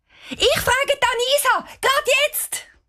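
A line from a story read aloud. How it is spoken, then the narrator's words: Called out. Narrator (German): ruft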